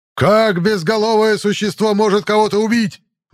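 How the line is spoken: Sudden yell. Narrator (Russian): Внезапно заорал Кортес

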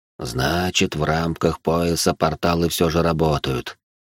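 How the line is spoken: Tired old man. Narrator (Russian): устало произнес старик

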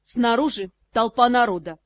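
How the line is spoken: Flat monotone. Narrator (Russian): сообщил Ас невыразительным тоном

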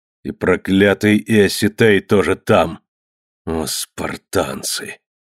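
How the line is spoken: Muffled hateful threatening exclamation. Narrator (Russian): Глухо, с ненавистью и угрозой воскликнул Нерх

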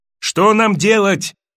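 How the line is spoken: Shouted. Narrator (Russian): крикнул Атлас

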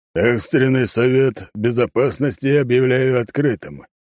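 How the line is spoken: Deep old man's voice. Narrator (Russian): пробасил старик

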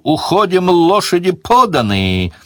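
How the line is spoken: Yell. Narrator (Russian): Сварог заорал

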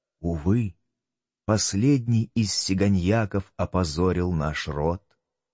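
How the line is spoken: Quiet slow ghostly whisper. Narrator (Russian): Тихий, медленный, беззвучный голос, тень голоса слетала с их раскрашенных губ, которые, казалось, шептали

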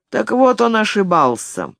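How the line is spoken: Creaky old voice. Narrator (Russian): проскрипел дядя Симон

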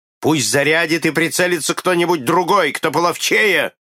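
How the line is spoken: Shouted. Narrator (Russian): крикнул капитан

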